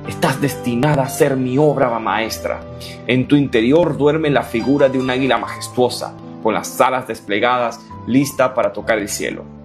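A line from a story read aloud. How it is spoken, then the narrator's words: Whispered. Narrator (Spanish): le susurró la roca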